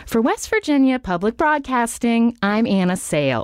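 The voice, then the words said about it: Sing-songy Nina Totenberg-style radio delivery. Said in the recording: “I was trying to impersonate like Nina Totenberg ... She's very animated ... it would be very sing-songy, my delivery ... I sounded just a total amateur”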